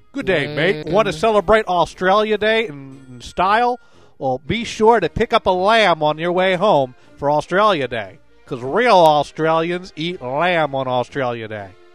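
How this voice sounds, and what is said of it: Bad put-on Australian accent. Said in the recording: “Your accent makes me want to gouge out my eyes with a friggin' kangaroo paw”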